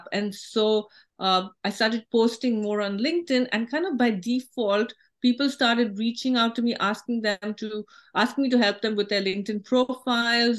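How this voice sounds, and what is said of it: Non-American accent. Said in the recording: “I didn't like the way I sounded. I don't sound American ... Our accent, we don't want to stand out as different”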